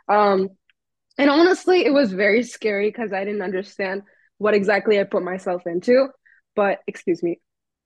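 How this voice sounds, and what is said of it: Hoarse sore-throat voice. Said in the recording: “I'm like suffering from a sore throat”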